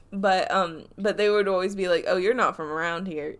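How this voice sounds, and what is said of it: Southern accent. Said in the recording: “I have a Southern accent, as I just accidentally did”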